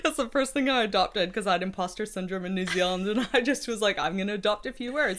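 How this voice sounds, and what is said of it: Canadian accent. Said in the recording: “speaks Canadian, apart from her yeses.”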